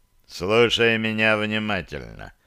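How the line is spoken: Grumbling man. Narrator (Russian): проворчал мужчина

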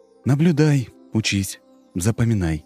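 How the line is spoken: Calm voice. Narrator (Russian): Санек тем же спокойным голосом сказал

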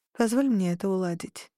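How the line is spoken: Soft speech. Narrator (Russian): тихонько сказала я

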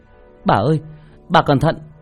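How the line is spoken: Alarmed shouting. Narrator (Vietnamese): Thấy bà lão gặp nguy hiểm, tôi hét lên

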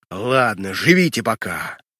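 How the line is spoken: Growled. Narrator (Russian): Прорычав

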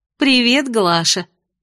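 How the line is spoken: Gleeful grinning greeting. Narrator (Russian): радостно оскалилась я

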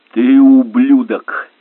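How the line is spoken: Shouted. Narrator (Russian): крикнул Чарльз, отступая

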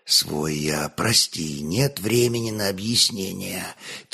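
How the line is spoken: Quiet. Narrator (Russian): тихо молвил трапезит

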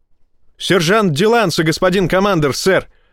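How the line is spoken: Barking from doorway. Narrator (Russian): рявкнул с порога техник

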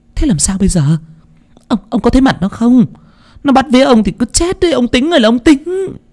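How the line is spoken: Crying out. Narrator (Vietnamese): Thím kêu lên

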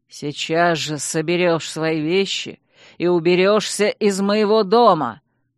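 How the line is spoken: Growling duke. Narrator (Russian): прорычал герцог

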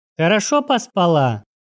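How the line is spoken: Grumbling. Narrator (Russian): проворчала Светка

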